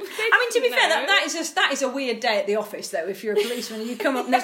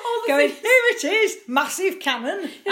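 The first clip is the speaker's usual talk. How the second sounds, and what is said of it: Put-on northern English accent. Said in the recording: “I don't know why I just gave them northern accents when they did that”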